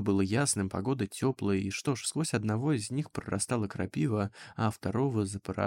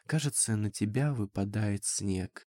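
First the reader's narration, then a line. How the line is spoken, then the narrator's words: Sad whisper. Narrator (Russian): грустно прошептал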